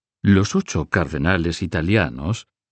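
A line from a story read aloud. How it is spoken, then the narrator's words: Plain. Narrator (Spanish): dijo Marigny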